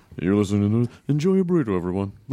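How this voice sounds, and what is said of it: Weird put-on voice. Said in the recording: “weird voice. You never used that before.”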